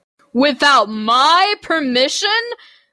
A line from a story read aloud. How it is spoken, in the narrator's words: bellowed